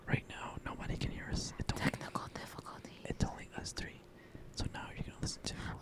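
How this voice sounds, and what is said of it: Whispering. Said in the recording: “can you stop whispering? ... Us whispering.”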